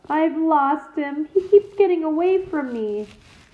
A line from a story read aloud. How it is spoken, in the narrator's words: he wailed